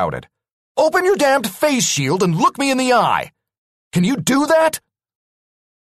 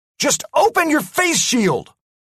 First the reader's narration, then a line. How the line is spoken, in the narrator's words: I yelled at MacDougall